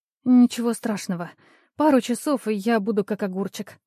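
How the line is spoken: Mumble. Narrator (Russian): бормотала я

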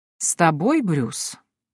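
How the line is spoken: Distrustful drawl. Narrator (Russian): недоверчиво протянул король

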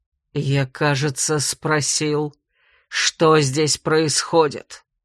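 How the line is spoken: Gritted-teeth mutter. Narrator (Russian): Сквозь зубы процедил Ян

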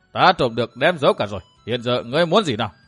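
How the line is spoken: Laughing loudly. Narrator (Vietnamese): Thất Sát La Sát cười to đáp

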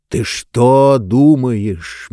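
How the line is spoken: Slow speech. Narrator (Russian): медленно заговорил Нетвердайбл

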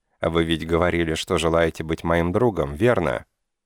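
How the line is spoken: Calm. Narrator (Russian): сказала она уже спокойно

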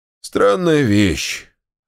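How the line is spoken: Hollow muffled voice. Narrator (Russian): ответил Алексей Алексеевич глухим голосом

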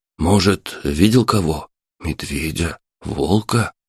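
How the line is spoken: Frightened. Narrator (Russian): испуганно произнес Денис

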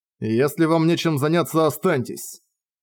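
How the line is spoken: Cold. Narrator (Russian): холодно сказал он

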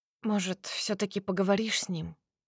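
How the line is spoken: Quiet suggestion. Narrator (Russian): предлагаю негромко

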